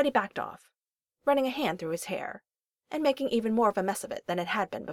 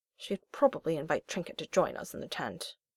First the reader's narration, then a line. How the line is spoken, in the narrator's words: Percy grumbled